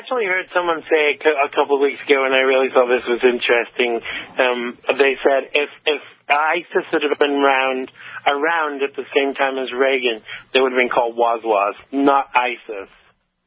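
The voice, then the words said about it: English accent. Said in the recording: “It's that English accent of yours.”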